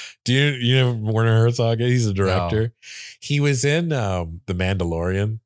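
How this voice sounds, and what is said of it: Usual voice. Nothing is said of it.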